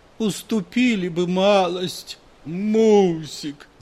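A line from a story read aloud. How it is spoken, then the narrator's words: Moaning plea. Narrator (Russian): застонал инженер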